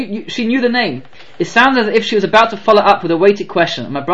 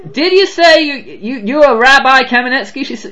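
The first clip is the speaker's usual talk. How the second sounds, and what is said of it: Weak imitated Southern drawl. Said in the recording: “she drawled. Okay, I do not have a good southern black accent”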